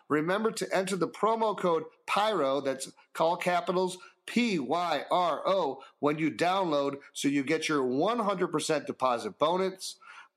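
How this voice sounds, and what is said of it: Cheesy radio announcer voice. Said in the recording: “Cheesy radio voice”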